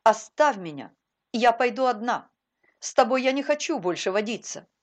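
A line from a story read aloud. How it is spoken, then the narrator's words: Stern command. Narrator (Russian): она строго приказала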